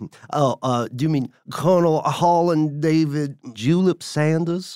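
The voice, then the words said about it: Exaggerated Southern accent. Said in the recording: “Don't you try to out-Southern me ... I could chew this accent all day. ... Like ice in a sweet tea.”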